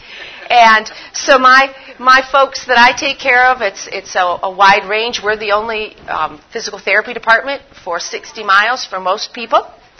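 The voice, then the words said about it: Northern US accent, Michigan. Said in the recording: “Where I live, it's a very small rural area in northern Michigan. You could tell by my accent I'm not from south of the Mason-Dixon line.”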